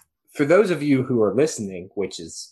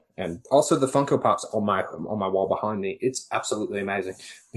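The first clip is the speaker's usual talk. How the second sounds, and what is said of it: Put-on Australian accent. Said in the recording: “for some reason I slipped into an Australian accent”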